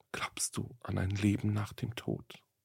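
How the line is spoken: Sudden whisper. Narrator (German): Wie aus dem Nichts habe die junge Frau … geflüstert

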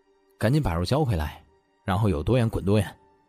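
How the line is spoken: Cold, contemptuous. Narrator (Chinese): 他冷冷的看着这些明显不是第一次坑人的垃圾，不屑的道

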